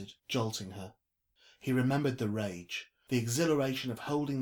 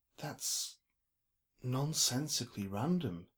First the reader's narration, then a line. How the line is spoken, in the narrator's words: eventually said, quietly